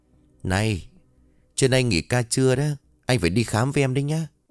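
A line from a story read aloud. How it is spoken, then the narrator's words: Whispering. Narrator (Vietnamese): Yến thì thầm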